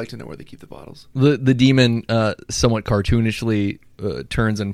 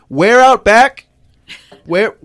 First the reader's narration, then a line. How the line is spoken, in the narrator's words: I shout to the demon